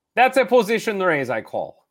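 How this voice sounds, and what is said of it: Convincing Russian accent. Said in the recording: “He's quite convincing. ... As a Russian. It's a great accent.”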